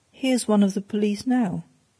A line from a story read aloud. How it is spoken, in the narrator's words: said Bryce calmly